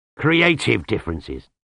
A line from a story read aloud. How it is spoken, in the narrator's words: he growled